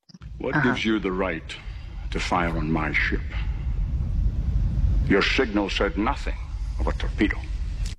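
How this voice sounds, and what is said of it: Sean Connery's Scottish accent. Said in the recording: “Sean Connery in Hunt for the Red October as the Russian submarine captain with his Scottish accent”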